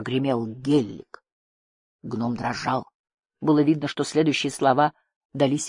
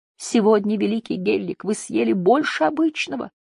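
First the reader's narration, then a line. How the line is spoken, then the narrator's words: Squeaky voice. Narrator (Russian): пропищал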